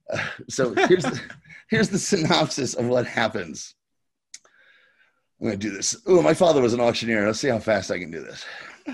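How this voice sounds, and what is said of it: Sounds a little out of breath. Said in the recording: “You sound a little out of breath”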